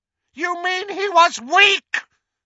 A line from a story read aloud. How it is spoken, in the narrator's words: screamed Voldemort